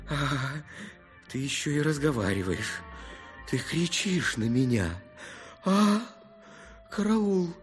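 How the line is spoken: Barely audible. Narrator (Russian): Ему казалось, что он орет благим матом, хотя на самом деле все это было произнесено еле слышно

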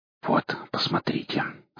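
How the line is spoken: Whisper. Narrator (Russian): сказал я шепотом

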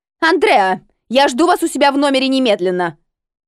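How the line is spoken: Bark. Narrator (Russian): Рявкнула

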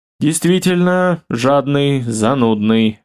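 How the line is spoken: Sighing. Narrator (Russian): вздохнул Михаил

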